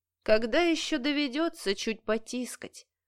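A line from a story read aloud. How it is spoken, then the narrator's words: Muffled chuckle. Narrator (Russian): Приглушенно хохотнул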